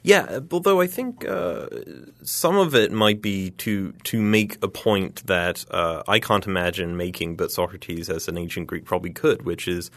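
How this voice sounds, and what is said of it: Southern US, Alabama-like accent. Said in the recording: “based on your accent. I'm assuming like somewhere in Alabama ... close.”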